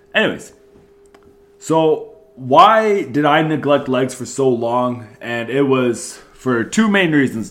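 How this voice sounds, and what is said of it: Stuffed-up congested voice. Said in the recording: “apologize for my voice. I am getting over a cold, so I might sound a little bit stuffed up... Just a little bit of leftover snot in there.”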